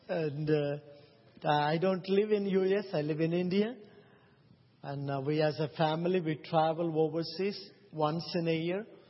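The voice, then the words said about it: Non-native English accent. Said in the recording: “have already noticed I have accent. ... So you may have to little concentrate to understand my accent.”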